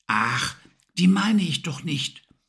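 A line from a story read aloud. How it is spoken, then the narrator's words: Whispered again. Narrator (German): flüsterte Emily wieder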